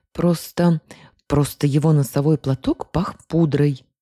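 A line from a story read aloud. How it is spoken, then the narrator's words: Irritated blurt, female. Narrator (Russian): раздраженно выпалила я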